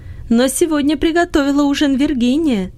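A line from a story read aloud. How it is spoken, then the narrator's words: Joyful. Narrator (Russian): сказала мама радостно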